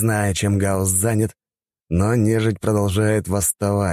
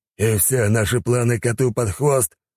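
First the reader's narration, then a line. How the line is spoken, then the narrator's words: Wolf's growl. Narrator (Russian): прорычал волк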